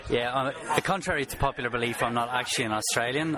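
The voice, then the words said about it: Irish-sounding accent. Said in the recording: “You sound like you should be in the Dublin Hammers.”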